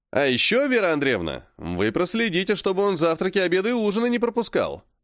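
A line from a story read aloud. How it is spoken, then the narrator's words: Snide. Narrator (Russian): ехидно сказал Серый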